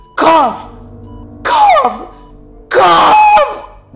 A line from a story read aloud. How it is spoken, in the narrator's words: he was livid and silently screaming at me